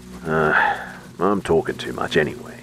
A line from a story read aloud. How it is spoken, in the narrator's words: he grumbled